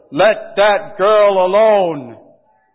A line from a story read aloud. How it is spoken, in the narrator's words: A man's voice shouted